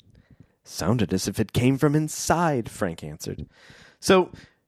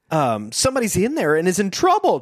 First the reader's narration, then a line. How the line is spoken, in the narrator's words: Joe exclaimed